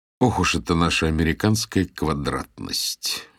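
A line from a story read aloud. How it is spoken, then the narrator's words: Grumbling. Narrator (Russian): ворчал я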